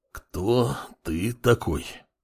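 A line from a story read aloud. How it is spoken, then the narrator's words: Gritted, curt. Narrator (Russian): процедил бывший следователь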